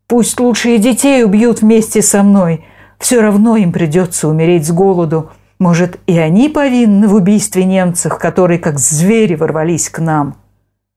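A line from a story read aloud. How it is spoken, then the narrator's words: Shouting again. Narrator (Russian): И опять закричал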